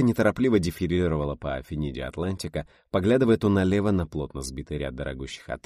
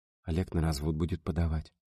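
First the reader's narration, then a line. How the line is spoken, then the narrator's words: Low, hushed voice. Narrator (Russian): сказала вполголоса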